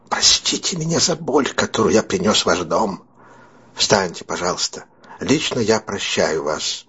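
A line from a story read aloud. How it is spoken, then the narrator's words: Breathless whisper. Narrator (Russian): Бэйлс произнес задыхавшимся шепотом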